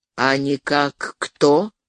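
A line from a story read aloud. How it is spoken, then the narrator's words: Plain. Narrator (Russian): спросил Мейер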